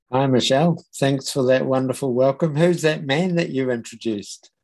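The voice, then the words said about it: New Zealand accent. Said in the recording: “as you may know from his accent, I should have told you that he is from New Zealand”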